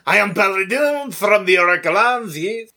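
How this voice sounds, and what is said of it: Exaggerated offensive French accent. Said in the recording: “Just the most offensive French accent possible.”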